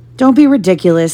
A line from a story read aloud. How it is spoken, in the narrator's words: snapped Aunt Petunia